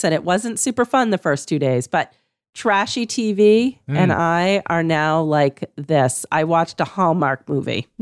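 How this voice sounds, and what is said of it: Hoarse, partly lost voice. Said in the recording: “I have COVID and, you know, my voice has gone a little bit”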